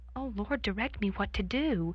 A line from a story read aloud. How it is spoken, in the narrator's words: I faltered in reply, praying inwardly